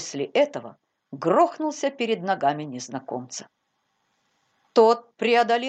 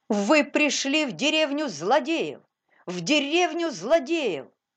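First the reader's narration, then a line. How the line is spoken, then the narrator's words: Sudden shout. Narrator (Russian): Паули из Витерхофа вдруг закричал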